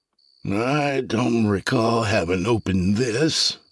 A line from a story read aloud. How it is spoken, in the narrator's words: the doctor said with slurred speech